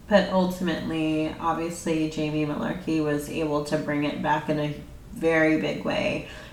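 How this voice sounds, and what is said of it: Nasal congested voice. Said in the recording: “I sound nasally. I'm pretty sure I do. I hear myself, but my allergies have been really bad”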